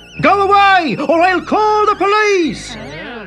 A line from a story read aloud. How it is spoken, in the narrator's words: Timothy's dad came out of the barn and shouted